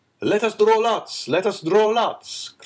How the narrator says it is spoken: cried all the brigands

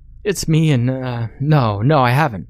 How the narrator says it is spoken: Ryan stuttered

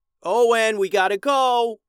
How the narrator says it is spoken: Liam hollered while struggling among Mondo's men

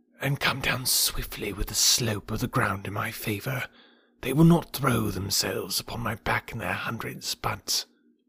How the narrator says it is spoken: Kaa whispered

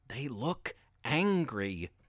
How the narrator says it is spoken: Natalie whispered

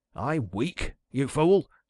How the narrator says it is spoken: cried the hermit

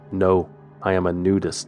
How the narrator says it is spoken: he said

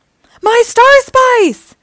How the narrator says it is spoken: howled Dreg

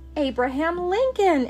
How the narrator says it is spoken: everyone cried

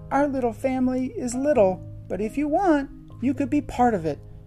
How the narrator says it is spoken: Lilo said sadly

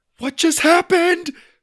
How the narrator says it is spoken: cried

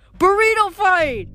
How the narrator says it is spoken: yelled

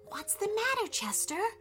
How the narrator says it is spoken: whispered Thomas

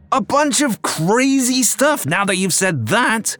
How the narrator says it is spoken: he yelled

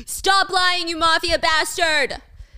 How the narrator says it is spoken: Albert ... he's screaming at Danny

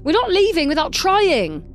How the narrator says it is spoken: he yelled back

